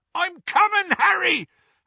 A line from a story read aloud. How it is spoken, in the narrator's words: Hagrid yelled from out of the darkness